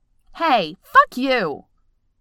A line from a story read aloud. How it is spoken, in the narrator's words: snaps, calling out loud enough that his voice easily travels the 20-30 feet between them